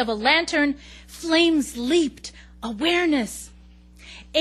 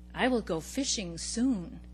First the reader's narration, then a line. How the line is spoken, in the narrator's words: I said to myself quietly, a promise